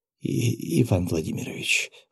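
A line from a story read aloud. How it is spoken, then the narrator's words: Breathless, fighting nausea. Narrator (Russian): выдохнула она, явно борясь с подступающей тошнотой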